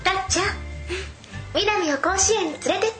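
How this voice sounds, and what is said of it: Imitates an anime heroine's voice. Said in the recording (Japanese): “モノマネ ... 懐かしの名作アニメタッチの朝倉みなみ”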